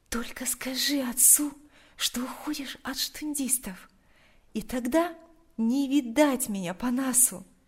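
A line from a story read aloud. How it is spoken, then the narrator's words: Quiet. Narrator (Russian): тихо произнесла она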